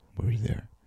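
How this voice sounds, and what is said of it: Put-on sexy voice impression. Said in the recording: “He just, is Johnny Depp. It's my sexy voice.”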